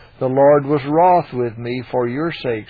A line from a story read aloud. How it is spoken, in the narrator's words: he said